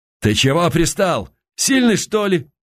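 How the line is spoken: Choked shout. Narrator (Russian): придушенно выкрикнул он

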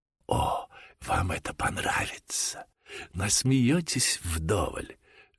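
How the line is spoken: Two young men whispering. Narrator (Russian): шепнули двое молодых людей

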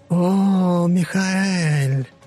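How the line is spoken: Low hoarse female voice. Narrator (Russian): Голос сущности принадлежал скорее женщине, но был довольно хриплым и низким

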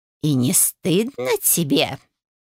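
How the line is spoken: Hissing. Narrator (Russian): прошипела миссис Эль Браун

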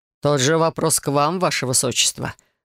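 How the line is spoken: With a snort. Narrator (Russian): хмыкнул Келар

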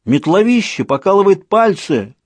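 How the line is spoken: Shouting. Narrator (Russian): крикнул Людзе

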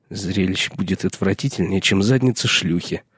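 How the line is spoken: Mutter. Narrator (Russian): пробормотал Пип

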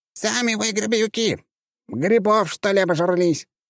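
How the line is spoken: Squeaky child's voice. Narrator (Russian): запищал этот малыш

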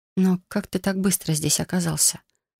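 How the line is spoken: Quiet question. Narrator (Russian): спросила тихо

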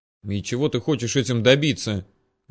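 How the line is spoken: Irritated, puzzled question. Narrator (Russian): раздраженно спросила ничего не понимающая Алина

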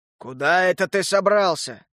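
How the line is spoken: Growling. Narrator (Russian): рыкнул гигант

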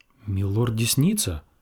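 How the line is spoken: Muttering. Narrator (Russian): пробормотал он, лысеющий и пузатый

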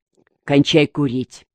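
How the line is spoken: Quiet command. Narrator (Russian): Малышка тихо скомандовал

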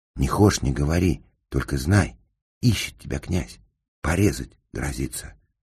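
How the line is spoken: Whisper. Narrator (Russian): зашептал

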